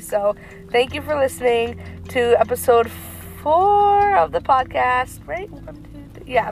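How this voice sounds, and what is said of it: Sick, rough voice. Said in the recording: “my sick voice ... my voice is kind of annoying the living heck out of me”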